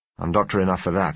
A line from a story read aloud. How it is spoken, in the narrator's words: I said